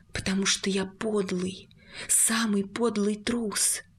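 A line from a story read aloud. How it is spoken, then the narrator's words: Pause, then barely-voiced whisper. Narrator (Russian): Он на секунду замолчал, а потом тихо-тихо произнес, одними губами прошептал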